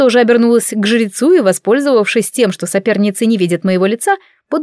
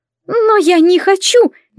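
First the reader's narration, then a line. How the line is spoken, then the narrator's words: Woman's squeal. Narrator (Russian): не выдержав, взвизгнула Эвель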